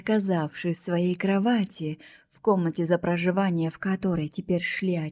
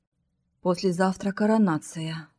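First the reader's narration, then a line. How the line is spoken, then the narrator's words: Even, authoritative older woman. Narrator (Russian): ровным голосом сообщила сидящая за массивным столом седовласая, но не потерявшая властности и уверенности в себе женщина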